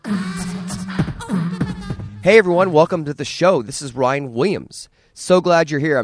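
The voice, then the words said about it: Slightly raspy, hoarse voice. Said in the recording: “as you can tell from my voice. It's a little raspy and hoarse.”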